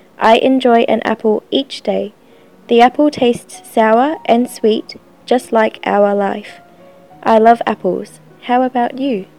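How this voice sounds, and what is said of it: Australasian English accent. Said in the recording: “she speaks the perfect accent. When she speaks English, it's the perfect accent of Australasia.”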